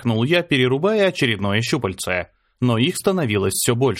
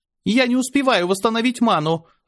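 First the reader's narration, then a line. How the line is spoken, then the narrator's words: Shouting. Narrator (Russian): закричала Аня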